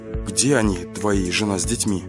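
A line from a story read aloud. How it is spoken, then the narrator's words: Quiet question. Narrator (Russian): тихо спросил я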